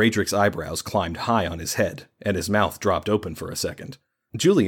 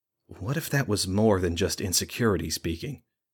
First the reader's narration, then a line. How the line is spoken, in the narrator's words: said more softly